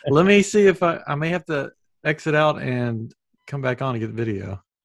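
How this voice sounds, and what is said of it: Southern US accent. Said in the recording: “He does a southern accent though.”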